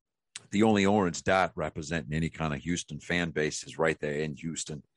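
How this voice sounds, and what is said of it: Put-on Boston accent. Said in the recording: “I'm talking to you with a Boston accent. I'm doing that on purpose.”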